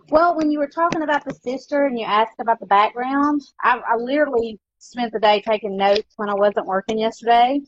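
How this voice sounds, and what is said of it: Country accent. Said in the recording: “I love your country accent.”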